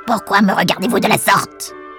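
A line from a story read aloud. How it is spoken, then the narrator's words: Dwarf yelping. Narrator (French): glapit le nain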